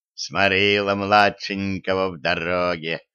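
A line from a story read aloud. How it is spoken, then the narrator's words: Father's gentle rumble. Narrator (Russian): ласково прогудел папаша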